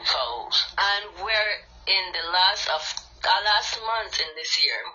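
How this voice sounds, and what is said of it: Deep Creole accent. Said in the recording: “sorry for my, um, my accent because I'm um, a little bit of Creole, deep Creole”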